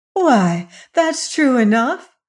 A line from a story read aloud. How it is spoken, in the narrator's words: cried Dorothy with eagerness